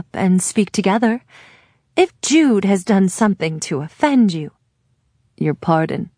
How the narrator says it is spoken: he says, not particularly kindly

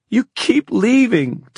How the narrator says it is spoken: Tavi choked against his brother's shirt front

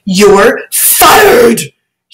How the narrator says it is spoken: he shouted at the top of his voice

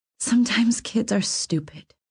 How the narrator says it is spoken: I said softly

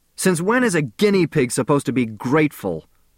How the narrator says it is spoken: I shouted

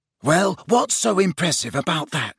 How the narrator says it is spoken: whispered Ron, who for some reason looked annoyed

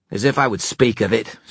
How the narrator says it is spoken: snapped Erek

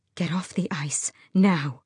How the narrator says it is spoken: breathed

